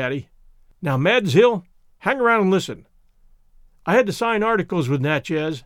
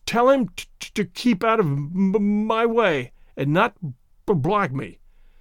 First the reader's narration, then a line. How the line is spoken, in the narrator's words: stuttered Tay-Tay Mulder